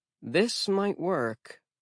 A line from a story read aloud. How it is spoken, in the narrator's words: Alex muttered